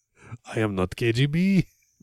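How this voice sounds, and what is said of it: Slightly Russian-sounding put-on accent. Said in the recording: “that actually sounded a little bit Russian”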